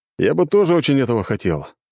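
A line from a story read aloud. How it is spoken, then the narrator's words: Sighing. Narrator (Russian): вздохнул цесаревич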